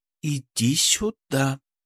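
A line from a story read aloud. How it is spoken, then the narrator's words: Whisper. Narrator (Russian): прошептала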